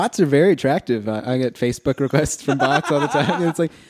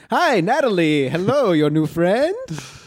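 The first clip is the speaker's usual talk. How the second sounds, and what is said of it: Put-on Jamaican Irish accent. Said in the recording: “I like the accent you give it. ... She's Jamaican Irish, I guess.”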